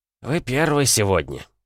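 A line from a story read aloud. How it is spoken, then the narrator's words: Old man grumbling. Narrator (Russian): проворчал пожилой мужчина в серой униформе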